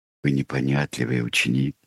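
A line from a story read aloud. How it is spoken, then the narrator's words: Soft. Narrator (Russian): мягко сказал О'Брайен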